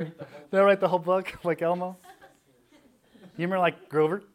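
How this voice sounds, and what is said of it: Usual voice. Nothing is said of it.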